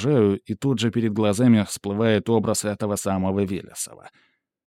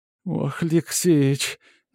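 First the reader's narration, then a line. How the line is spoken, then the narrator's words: Sobbing like a child. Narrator (Russian): зарыдала Матрёна как дитя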